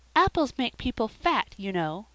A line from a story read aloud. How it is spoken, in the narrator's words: said Felicity sweetly